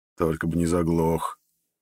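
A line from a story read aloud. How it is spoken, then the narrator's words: Muttered. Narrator (Russian): пробормотал я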